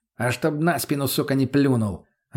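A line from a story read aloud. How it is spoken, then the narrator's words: Snapping back. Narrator (Russian): огрызнулся мутный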